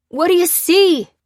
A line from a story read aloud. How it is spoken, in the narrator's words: called Pete anxiously